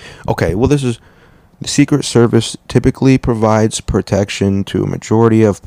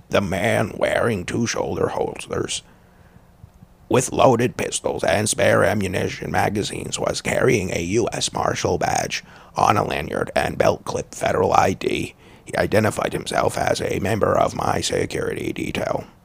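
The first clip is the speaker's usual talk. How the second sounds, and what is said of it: Impression of Robert F. Kennedy Jr. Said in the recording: “Kennedy wrote ... I'm doing his voice,”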